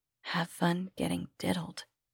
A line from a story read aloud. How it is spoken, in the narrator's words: she whispered